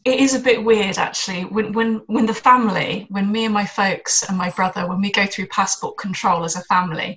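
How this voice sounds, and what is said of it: Posh southern English accent. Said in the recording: “you sound like a, you know, born and bred English person ... I sound what could be loosely described as a posh South, you know, England accent.”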